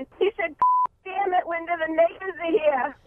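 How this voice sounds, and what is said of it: Quoted line in a New York accent. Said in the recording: “my dad with his New York accent”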